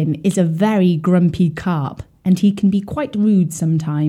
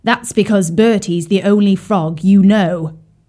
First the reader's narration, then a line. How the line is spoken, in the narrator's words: he snapped